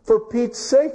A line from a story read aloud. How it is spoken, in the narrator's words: exclaimed the astonished man